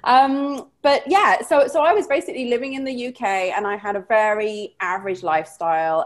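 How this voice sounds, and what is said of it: British accent, somewhat warped. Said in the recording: “as you can probably tell by the accent, although it's got a bit warped over the years”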